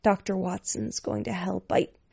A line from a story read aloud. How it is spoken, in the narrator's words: He whispered